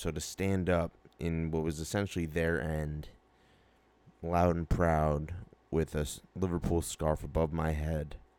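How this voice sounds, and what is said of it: Monotone voice, partly lost. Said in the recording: “monotone way of speaking, but I kind of did lose my voice a little bit”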